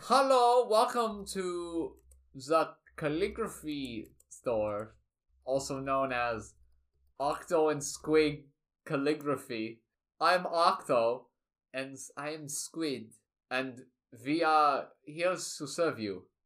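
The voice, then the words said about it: Put-on German accent. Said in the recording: “they're gonna have a German accent.”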